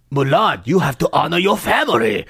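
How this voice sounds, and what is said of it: Mock broken English accent. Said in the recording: “speak in a broken English accent?”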